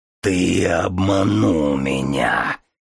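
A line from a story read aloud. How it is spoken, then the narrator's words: Growling. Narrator (Russian): прорычал он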